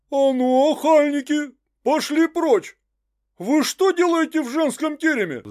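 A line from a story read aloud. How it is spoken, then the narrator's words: Roaring nanny. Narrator (Russian): взревела мамка Прасковья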